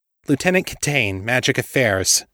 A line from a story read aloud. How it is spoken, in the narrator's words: she said sharply